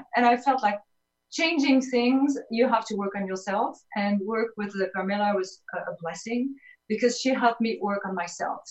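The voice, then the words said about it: French accent. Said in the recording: “as you hear my accent, I'm from Paris”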